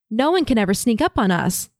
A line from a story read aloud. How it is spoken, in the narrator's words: cheerfully tells